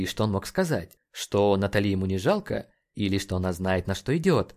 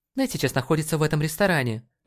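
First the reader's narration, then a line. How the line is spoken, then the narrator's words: Sharp. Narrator (Russian): резко сказала она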